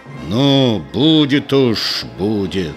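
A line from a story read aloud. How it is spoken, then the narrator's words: Angry, through clenched teeth. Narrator (Russian): Егор сказал зло сквозь зубы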